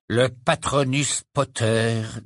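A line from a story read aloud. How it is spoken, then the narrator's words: Icy. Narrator (French): dit Lucius Malfoy d'un ton glacial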